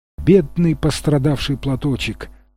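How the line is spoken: Tender. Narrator (Russian): нежно сказала она

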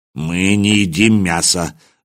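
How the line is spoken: Muttering. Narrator (Russian): буркнул Михаил

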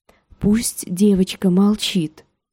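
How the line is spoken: Whisper close to ear. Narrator (Russian): сказали шепотом у самого ее уха

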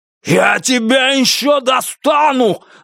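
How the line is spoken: Yelling back. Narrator (Russian): заорал в ответ Бастер

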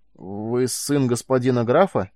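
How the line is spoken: Strained, forced out. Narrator (Russian): выдавил из себя Карил

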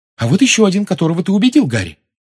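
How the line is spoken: Excited exclamation. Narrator (Russian): возбужденно воскликнула Гермиона

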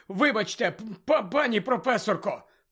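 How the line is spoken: Hoarse croak. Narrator (Ukrainian): прохрипів він

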